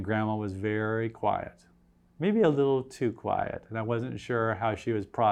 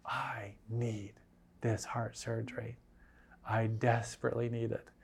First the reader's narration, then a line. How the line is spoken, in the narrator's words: very meekly and quietly, she whispered